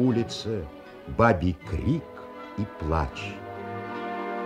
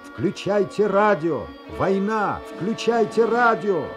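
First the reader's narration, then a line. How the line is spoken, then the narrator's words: Shouting while running. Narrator (Russian): бежал человек и кричал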